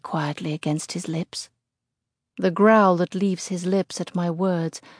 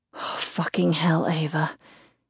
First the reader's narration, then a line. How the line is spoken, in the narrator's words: he pants through strangled breaths